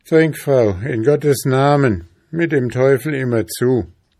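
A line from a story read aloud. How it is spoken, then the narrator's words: Desperate frenzied cry. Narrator (German): überkam es den König wieder wie Wahn und Verzweiflung, und er rief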